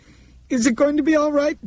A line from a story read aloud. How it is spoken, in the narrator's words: Dinah asked frantically